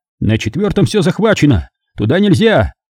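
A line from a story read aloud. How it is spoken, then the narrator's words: Shouted by several. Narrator (Russian): выкрикнули они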